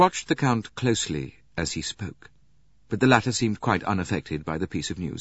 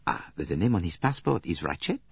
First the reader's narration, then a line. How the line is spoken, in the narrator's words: said Poirot